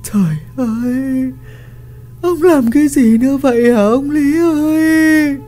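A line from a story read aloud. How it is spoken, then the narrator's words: Crying, sobbing woman. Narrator (Vietnamese): Bà cả nói một tiếng, khóc nức nở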